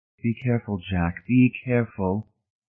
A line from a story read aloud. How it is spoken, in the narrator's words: Marcia came quietly over beside him and grated in his ear